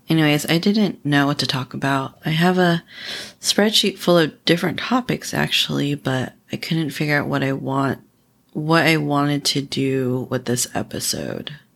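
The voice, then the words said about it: Tired-sounding voice. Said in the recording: “I don't know if you can hear in my voice, but I'm very tired.”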